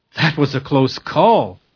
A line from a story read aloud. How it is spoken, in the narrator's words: said Sam with a sigh